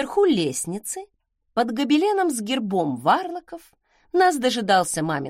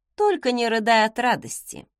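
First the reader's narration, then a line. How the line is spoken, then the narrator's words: Scoffing grunt. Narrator (Russian): хмыкнула я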